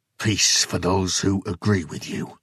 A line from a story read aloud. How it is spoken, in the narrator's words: Jason spat